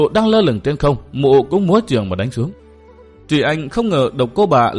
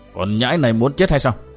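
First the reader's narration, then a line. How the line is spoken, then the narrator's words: Loud angry shout. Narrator (Vietnamese): Độc Cô Bà liền dần giữ quát lớn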